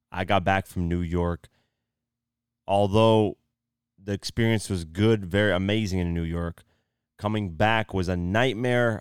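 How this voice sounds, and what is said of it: Strained, fading voice. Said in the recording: “I am losing my voice right now.”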